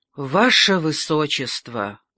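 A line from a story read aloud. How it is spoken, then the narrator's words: Sigh. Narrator (Russian): вздохнул дон Фуэнсейлида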